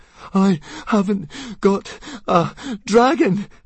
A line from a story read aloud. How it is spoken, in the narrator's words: panted Fishlegs